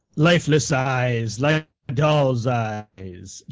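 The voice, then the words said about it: Poor imitation of another person's accent. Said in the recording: “Your Robert Shaw accent is terrible.”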